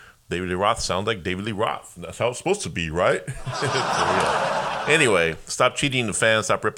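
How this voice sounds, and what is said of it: Usual voice. Nothing is said of it.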